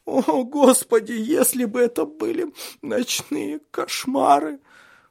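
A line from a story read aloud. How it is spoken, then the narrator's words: Sobbing. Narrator (Russian): всхлипывала Шарлотта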